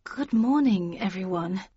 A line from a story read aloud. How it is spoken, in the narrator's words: began Libris in a nervous voice